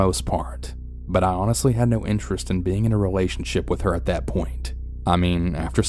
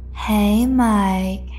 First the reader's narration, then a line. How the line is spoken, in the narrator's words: she had said in an irritating, seductive voice